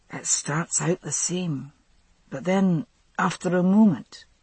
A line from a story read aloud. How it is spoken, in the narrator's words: he said, speaking softly